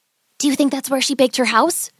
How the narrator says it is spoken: Gretel whispered to Hansel

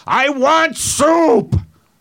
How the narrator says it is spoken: kept yelling out

